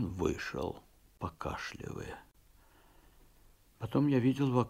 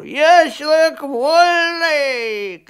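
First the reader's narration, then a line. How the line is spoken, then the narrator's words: Shouting. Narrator (Russian): кричал он на лошадей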